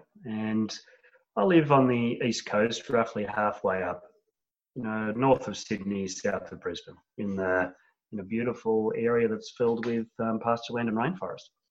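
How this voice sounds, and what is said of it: Australian accent. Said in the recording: “I hear you have an accent ... I'm down under and in Australia”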